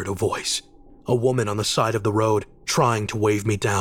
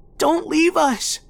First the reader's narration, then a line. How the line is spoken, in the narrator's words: a little boy cried from the other side, running behind my car